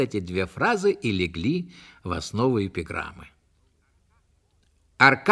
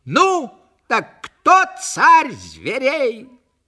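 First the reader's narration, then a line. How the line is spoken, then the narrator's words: Shouted. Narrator (Russian): крикнешь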